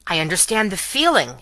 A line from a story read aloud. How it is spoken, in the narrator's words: exclaimed Carton, with a bright flush